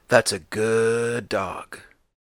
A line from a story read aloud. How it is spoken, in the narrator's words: sometimes murmuring to himself